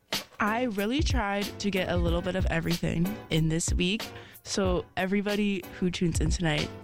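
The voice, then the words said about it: Raspy, hoarse voice. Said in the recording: “if my voice is a little raspy, ... I will probably sound like a chain smoker today”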